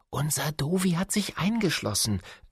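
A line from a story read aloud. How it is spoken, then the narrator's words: Whispered explanation. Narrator (German): erklärt Caro flüsternd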